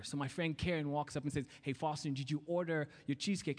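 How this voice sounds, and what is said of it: Kenyan accent. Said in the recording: “my Kenyan accent”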